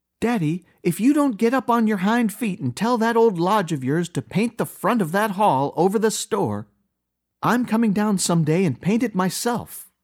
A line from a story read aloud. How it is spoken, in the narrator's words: cried Emily